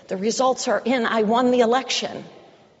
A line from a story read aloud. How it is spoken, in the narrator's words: shouted